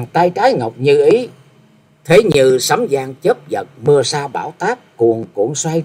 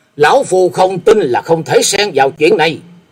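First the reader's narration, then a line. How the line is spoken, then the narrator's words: Breathless loud shout. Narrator (Vietnamese): Sau một lúc thở dốc, hét lên một tiếng lớn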